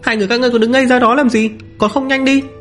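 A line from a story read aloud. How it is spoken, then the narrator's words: Weak scolding shout. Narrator (Vietnamese): Chư đạo thánh thành âm yếu ớt quát lên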